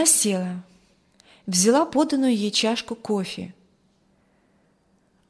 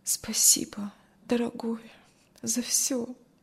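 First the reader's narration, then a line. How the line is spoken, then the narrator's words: Tired, barely audible. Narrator (Russian): Кристи устало еле слышно сказала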